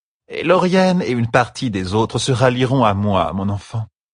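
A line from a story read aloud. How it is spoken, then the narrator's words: Calm, even tone. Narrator (French): dit Arimilla d'un ton égal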